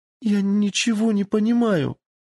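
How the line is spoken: Sobbing exclamation. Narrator (Russian): рыдая воскликнула она

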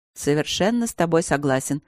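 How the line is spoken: Dry. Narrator (Russian): сухо сказал Тротт и усмехнулся

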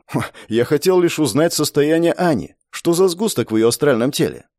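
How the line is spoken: Calm reply after a snort. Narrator (Russian): Хмыкнув, я спокойно ответил

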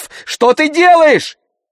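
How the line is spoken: Shout. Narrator (Russian): закричала Зарина

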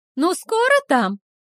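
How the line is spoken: Shout. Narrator (Russian): крикнула она

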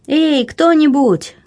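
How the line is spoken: Shout. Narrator (Russian): крикнула

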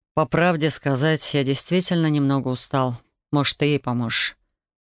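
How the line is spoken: Cold, curt. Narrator (Russian): холодно бросил он

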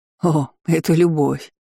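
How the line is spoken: Laughing. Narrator (Russian): хохотнул Карх

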